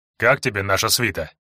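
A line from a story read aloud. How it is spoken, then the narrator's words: Gloomy question. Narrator (Russian): мрачно вопросил Казаков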